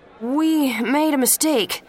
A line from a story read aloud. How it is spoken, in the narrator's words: the voice said nervously